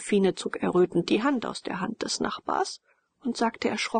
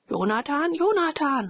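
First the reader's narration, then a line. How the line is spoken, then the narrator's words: Joking, meaningful call. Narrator (German): rief der Major und drohte scherzend und bedeutungsvoll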